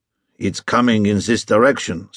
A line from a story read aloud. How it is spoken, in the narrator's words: said one